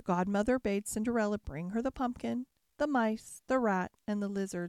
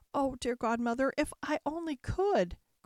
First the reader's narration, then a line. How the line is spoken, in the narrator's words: cried Cinderella